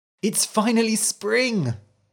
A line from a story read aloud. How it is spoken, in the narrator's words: he cried